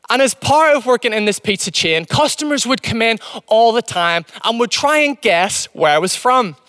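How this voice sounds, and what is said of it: Mixed, partly Northern Irish accent. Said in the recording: “my accent's not really all that English, It's not really all that Northern Irish anymore ... It's like this mishmash of different accents.”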